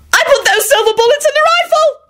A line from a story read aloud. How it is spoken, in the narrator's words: Elizabeth shrieked and burst into tears